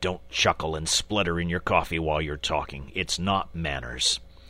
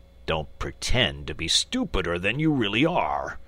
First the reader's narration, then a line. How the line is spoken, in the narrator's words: replied the badger crossly